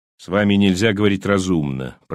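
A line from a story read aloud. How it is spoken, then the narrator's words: Grumble. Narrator (Russian): пробурчал Лоу-старший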